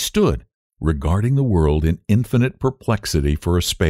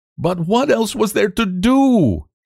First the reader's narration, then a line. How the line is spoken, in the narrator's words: cried